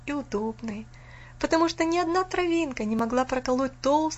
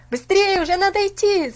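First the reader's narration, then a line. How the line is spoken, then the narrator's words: Shouting in unison. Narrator (Russian): закричали они опять все разом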